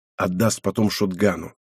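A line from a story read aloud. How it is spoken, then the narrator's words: Whispering. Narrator (Russian): прошептал я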